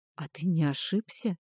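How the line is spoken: Quiet question. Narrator (Russian): тихо спросил Фарах

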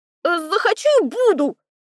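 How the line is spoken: Yelling. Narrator (Russian): заорала я

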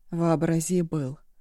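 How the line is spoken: Even voice. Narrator (Russian): ровным голосом отозвался Абалу

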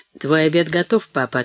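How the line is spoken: Calm reply. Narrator (Russian): отвечала Мэри спокойно

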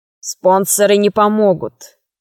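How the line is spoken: Spiteful statement. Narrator (Russian): сказал посетитель, и глазенки его злобно сверкнули

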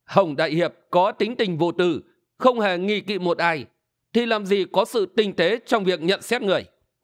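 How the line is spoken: Smiling. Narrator (Vietnamese): Hình Xuyên mỉm cười

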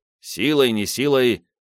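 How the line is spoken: Grumbled. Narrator (Russian): буркнул Бенвенуто

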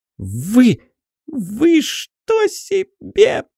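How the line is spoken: Voice breaking into pig-like squeal. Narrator (Russian): Его голос вновь сорвался на противный визг, отдаленно напоминавший визжание свиньи, которую ведут на бойню

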